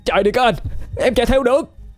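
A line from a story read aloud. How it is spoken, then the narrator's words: Shouted. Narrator (Vietnamese): Cậu ta hét lên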